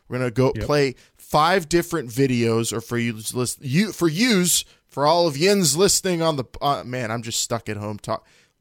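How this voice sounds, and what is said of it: Strong Pittsburgh accent. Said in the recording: “my Pittsburgh accent just is deepening really hardcore”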